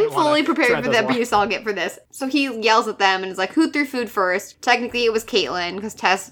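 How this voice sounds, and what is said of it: Usual voice. Nothing is said of it.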